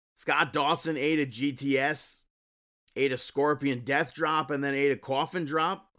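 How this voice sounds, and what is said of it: Long Island accent. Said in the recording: “there's that Long Island accent again”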